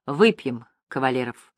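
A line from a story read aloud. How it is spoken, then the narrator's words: Plain. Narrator (Russian): сказал Иван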